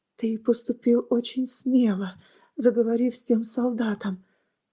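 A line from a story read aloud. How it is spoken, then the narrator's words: Trembling voice. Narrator (Russian): Дрожащим голосом Бетекин сказала брату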